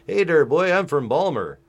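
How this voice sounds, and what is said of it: Mock Baltimore accent. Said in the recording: “they had this fucking, like, terrible accent where they're like, hey there, boy ... East Coast fucking weird Scottish fucking influenced fucking accent ... the people from Baltimore are just ridiculous”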